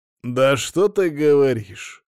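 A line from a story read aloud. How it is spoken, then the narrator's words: Skeptical snort. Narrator (Russian): хмыкнул мужчина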